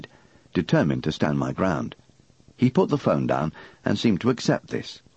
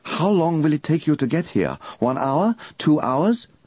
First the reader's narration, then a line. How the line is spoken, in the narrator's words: he asked urgently